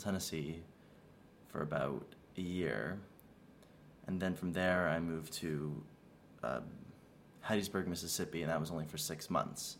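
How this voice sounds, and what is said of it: Americanized Canadian accent, Southern, French tinge. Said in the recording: “mostly Canadian with a whole bunch of different Southern influences ... I have a little bit of French when I speak in my accent ... a very Americanized Canadian accent with a little bit of a French tinge”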